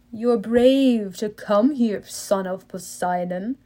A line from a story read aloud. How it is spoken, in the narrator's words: he said in an oily voice